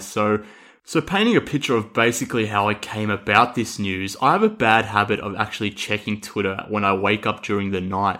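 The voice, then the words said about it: Australian accent. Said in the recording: “I'm obviously with my accent here from Australia”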